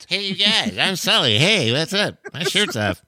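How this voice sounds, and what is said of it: Adult faking a Cartman-like kid voice. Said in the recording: “an adult trying to do a kid voice ... It's becoming Cartman. With every repetition, it's becoming more Cartman.”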